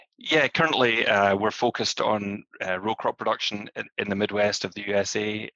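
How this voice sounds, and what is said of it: Non-American accent. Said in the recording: “You gather from my accent, I'm originally from outside of the US”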